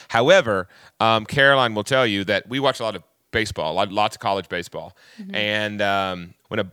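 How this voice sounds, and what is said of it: Usual voice. Nothing is said of it.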